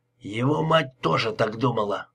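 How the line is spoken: Grumbled. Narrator (Russian): пробурчал Лепски

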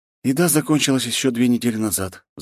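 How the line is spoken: Sighing. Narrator (Russian): вздохнул он

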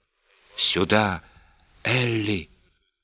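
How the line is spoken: Vile whisper. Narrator (Russian): Снова этот гнусный шепот

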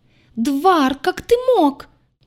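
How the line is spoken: Piercing shriek. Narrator (Russian): Пронзительному визгу Аи

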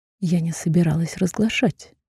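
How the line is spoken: Calm, held-breath reply. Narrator (Russian): спокойно ответила, пропуская вдох

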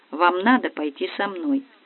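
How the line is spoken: Quiet, fed up. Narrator (Russian): Мне надоела вредная бабка, и я тихо сказала

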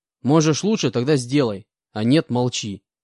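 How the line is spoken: Displeased snapping retort. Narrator (Russian): Недовольно огрызнулся я

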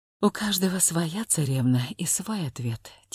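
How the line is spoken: Quiet, slightly irritated reply. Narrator (Russian): тихо ответила Варя, в глубине души немного раздражаясь

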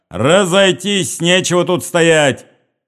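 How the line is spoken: Shouting at crowd. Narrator (Russian): крикнул он на толпу

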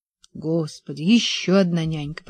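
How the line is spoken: Muttered. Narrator (Russian): пробормотал

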